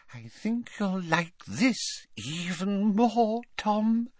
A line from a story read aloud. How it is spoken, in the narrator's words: she whispered